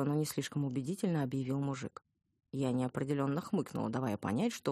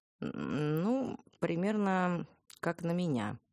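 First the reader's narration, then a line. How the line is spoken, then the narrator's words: Uncertain. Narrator (Russian): неуверенно сказала я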